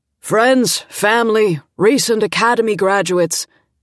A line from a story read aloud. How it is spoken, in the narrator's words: Dad said in his booming voice